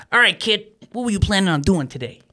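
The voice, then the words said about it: Impression of Kenny. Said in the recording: “great impression.”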